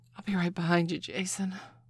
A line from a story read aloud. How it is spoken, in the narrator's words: Lucy breathed